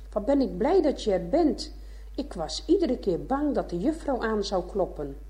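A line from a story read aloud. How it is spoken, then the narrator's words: Calling out. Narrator (Dutch): riep hij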